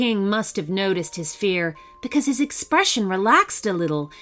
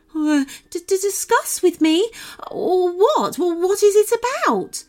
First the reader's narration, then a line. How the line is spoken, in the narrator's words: the wolf stammered, trying with greatest difficulty not to collapse with fear